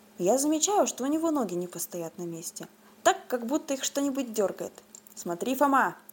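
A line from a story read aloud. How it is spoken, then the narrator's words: Plain. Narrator (Russian): сказал Остап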